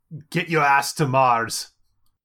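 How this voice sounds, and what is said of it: Bad Arnold Schwarzenegger impression. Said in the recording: “That was a really bad Arnold Schwarzenegger impression.”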